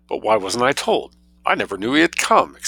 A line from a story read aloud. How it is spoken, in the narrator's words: exclaimed Huddle